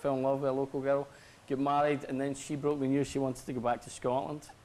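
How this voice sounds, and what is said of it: Strong Glaswegian Scottish accent. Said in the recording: “I'm sensing an accent ... I'm from Scotland ... I'm from Glasgow ... Govan ... I've still got a very strong accent”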